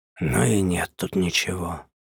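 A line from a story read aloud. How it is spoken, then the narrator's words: Disappointed mutter. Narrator (Russian): Олегович разочарованно пробормотал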